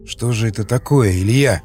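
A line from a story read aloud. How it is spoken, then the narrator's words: Shocked hoarse wheeze. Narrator (Russian): просипел, шокированный увиденным Васнецов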